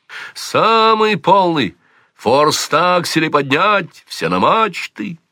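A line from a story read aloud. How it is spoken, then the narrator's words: Shouting aside. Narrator (Russian): он что-то крикнул в сторону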